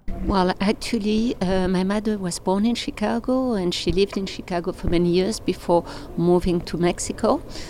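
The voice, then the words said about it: French accent. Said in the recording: “such a terrible French accent”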